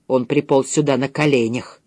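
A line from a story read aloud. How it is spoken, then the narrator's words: Whispered. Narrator (Russian): прошептала она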